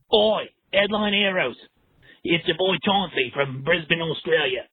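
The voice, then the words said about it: Inconsistent Australian accent. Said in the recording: “I can't even maintain a voice or an accent. I'm all over the place ... he can barely keep an accent”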